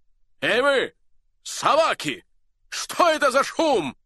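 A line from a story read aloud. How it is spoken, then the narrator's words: Thunderous shout. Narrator (Russian): Закричал он громовым голосом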